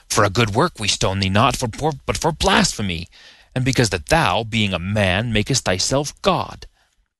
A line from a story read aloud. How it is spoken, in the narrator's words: They angrily retorted